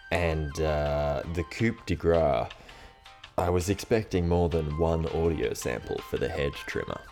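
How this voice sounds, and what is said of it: Bad put-on American accent. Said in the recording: “That's my Joe voice, by the way. He's doing a really bad American accent for some reason.”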